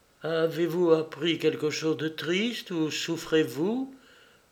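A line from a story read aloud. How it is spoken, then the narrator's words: Timid question. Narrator (French): lui demanda timidement sa femme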